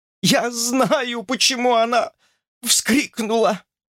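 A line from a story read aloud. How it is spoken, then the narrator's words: Hoarse whisper. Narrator (Russian): хрипло прошептала тетка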